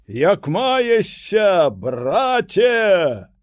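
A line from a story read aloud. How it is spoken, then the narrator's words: Shouting. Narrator (Belarusian): Васіль крычыць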